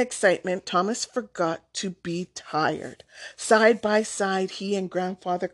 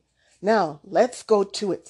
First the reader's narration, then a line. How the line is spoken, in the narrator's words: said Grandfather